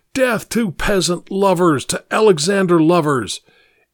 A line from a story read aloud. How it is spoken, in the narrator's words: Vladimir's voice yelling